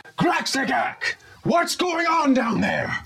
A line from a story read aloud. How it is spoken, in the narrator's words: she screams out